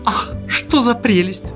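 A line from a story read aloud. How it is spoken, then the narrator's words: Exclamation. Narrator (Russian): воскликнула Фрёкин Снорк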